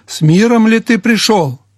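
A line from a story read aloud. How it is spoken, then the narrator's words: Shouted. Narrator (Russian): крикнул Иорам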